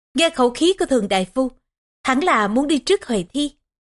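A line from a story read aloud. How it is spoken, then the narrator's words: Laughing loudly. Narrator (Vietnamese): Huệ Thi cười lớn rồi nói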